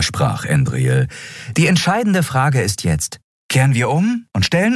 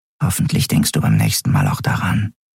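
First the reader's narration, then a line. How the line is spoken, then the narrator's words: Whispered. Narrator (German): flüsterte Nelen ihr zu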